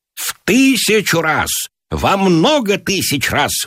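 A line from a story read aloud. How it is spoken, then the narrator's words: Loud theatrical cry. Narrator (Russian): выкрикнул Гиберн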